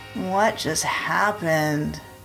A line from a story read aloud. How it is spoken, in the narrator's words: moaned